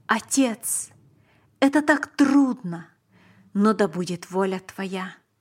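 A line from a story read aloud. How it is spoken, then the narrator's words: Exclamation. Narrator (Russian): Он воскликнул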